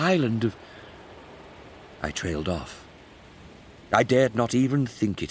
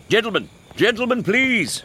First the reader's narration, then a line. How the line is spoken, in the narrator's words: Horatio shouted